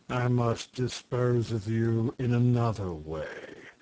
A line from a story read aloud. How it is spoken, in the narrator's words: said Terribus, regarding the prince gloomily